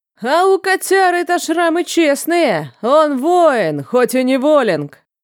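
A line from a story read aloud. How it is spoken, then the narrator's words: Loud carrying shout. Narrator (Russian): Выкрикнулся тот же голос, странным образом покрыв всю площадь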